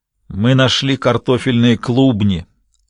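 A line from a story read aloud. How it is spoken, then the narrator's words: Muttered amid laughter. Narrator (Russian): пробурчал Шевре под смех рабочих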